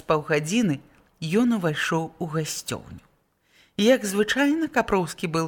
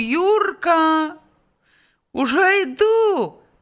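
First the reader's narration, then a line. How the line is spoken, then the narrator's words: Loud boy's call. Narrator (Belarusian): Так сама голасна адзваўся хлопец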